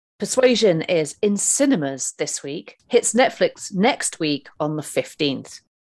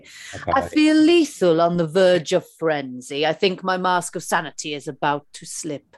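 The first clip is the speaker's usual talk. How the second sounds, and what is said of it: Put-on Greek accent, sounding Italian. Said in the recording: “I'm going to try and do it in Russell Crowe's very sort of voluptuous Greek accent. ... I think that was more Italian”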